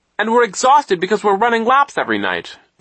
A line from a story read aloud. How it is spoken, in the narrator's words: Klaus cried